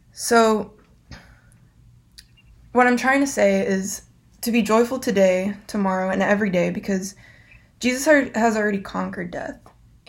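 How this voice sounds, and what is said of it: Raspy voice. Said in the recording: “my voice is so raspy”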